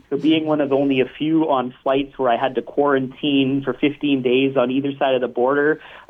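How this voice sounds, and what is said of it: Canadian accent. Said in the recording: “I'm Canadian, as you can likely tell in my accent.”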